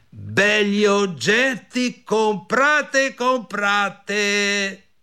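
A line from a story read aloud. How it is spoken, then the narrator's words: Shouted. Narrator (Italian): gridò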